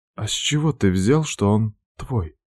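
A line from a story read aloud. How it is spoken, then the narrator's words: Trembling voice asking. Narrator (Russian): Дрожащим голосом спрашивает она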